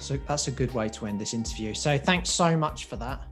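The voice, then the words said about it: English accent, slightly Australian-sounding. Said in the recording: “I love your English accent ... my slightly weird English voice that sounds a bit Australian”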